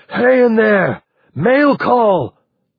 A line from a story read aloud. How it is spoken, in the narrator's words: He threw back his head and hollered